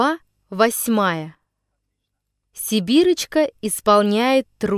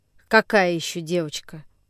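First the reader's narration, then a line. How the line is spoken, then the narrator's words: Displeased grumble. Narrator (Russian): Недовольным голосом проворчал Алмазин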